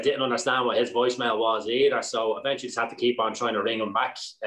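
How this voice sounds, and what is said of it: Southern Irish accent. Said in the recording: “if people are listening to your accent here, and it's, you know, it's clear you're from the south”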